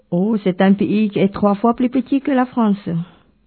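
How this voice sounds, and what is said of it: Slight Asian accent in French. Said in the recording (French): “vous avez un petit accent ... un petit accent qui nous vient d'Asie”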